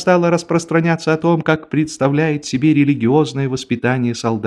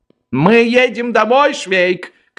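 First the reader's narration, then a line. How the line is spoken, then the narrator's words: Shout. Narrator (Russian): крикнул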